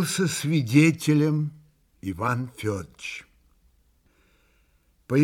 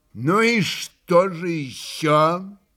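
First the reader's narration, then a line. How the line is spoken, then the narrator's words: Loud question. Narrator (Russian): Громко спросил он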